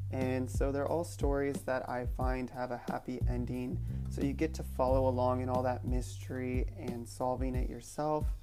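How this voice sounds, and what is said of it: Slightly squeaky voice. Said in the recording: “my voice is a little bit squeaky”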